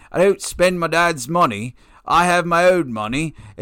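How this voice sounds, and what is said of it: Imitation with slight English accent. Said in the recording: “I think he has a little bit of an English accent.”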